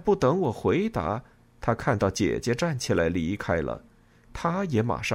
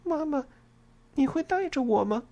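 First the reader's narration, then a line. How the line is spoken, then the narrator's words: Worried quiet question. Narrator (Chinese): 艾尔莎有些担忧的小声问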